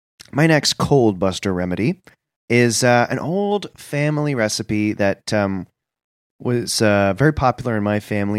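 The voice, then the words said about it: Congested, stuffy sick-sounding voice. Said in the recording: “you're the guy with the cold ... I have a cold.”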